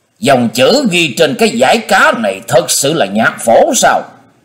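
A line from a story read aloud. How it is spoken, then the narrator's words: Strained hissing question. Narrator (Vietnamese): Hắn cố nuốt lại ngụm máu loãng, rít giọng hỏi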